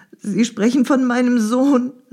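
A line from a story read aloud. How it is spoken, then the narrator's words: Crying out in tears. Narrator (German): rief unter Tränen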